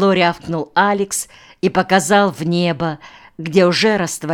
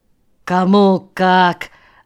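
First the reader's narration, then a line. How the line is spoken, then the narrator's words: Grim smirk. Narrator (Russian): мрачно усмехнулся Алекс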